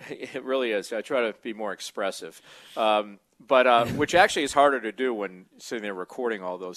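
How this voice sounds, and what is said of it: Usual voice. Nothing is said of it.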